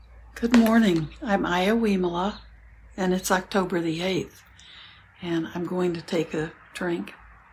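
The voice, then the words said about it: Slightly hoarse, froggy voice. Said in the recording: “My voice is a little froggy today.”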